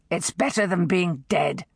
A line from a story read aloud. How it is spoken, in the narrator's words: he growled